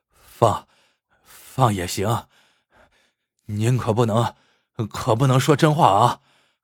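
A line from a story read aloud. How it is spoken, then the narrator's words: Panting heavily. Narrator (Chinese): 刘主任喘着粗气说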